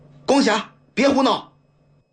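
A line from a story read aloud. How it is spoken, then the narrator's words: Hasty, loud scolding. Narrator (Chinese): 杜校长急忙大声呵斥道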